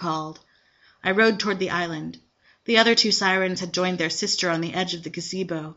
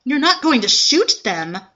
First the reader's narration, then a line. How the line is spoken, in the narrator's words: I cried